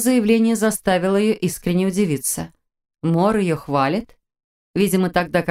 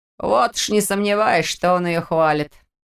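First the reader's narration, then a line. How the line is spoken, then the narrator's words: Unexpected skeptical snort. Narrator (Russian): неожиданно хмыкнул Петр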